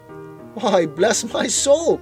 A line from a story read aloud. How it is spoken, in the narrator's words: cried Fred